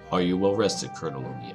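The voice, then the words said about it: Flat monotone voice. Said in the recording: “in his monotone voice.”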